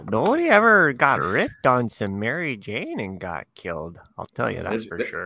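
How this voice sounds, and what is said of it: Put-on Canadian Minnesotan accent. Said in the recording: “I'm glad you mastered another accent now ... that is. That is the Canadian. Minnesotan.”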